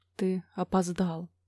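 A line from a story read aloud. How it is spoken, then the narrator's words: Quiet. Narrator (Russian): тихо сказала она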